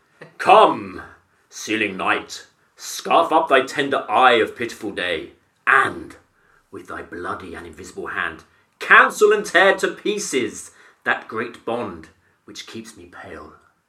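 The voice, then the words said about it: Grand, powerful theatrical thespian delivery. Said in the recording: “my best thespian accent ... Are we talking Brian Blessed? ... Good, that's very powerful.”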